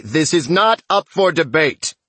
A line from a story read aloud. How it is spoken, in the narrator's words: the David who doesn't talk says loudly